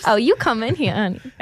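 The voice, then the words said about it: Seductive Southern Savannah accent. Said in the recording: “But in like Savannah. ... A little too seductive. ... I just went to my accent part of my brain and just something weird came out.”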